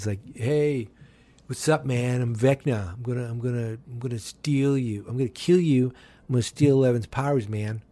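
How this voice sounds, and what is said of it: Laid-back California surfer-style voice. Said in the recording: “That's my impersonation of a California demon.”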